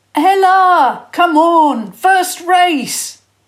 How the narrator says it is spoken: Joel called out

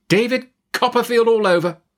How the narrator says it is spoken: cried Miss Betsy

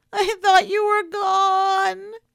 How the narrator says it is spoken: she wailed into his pocket

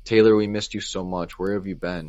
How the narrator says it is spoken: she said

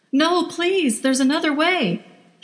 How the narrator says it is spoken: shouted at him now

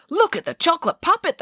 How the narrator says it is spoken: cried

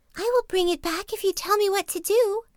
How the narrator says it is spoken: cried the little fish, who would have promised anything

